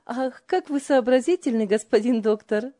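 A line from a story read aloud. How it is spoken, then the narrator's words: Hearty laughter. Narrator (Russian): от души смеялась Ева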